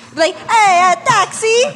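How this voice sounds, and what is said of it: Put-on Italian accent. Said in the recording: “I honestly started talking in an Italian accent”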